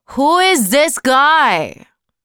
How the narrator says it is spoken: shouted Conrad

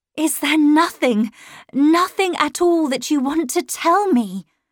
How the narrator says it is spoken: I cried

